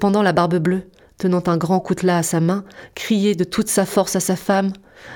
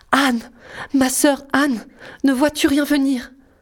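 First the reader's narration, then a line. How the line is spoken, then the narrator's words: Hushed cry. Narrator (French): elle criait tout bas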